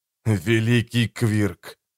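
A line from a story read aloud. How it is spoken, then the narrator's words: Hissing. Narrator (Russian): прошипел Валентайн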